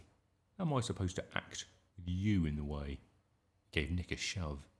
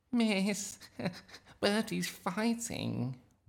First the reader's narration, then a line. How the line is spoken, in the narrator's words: whined Nick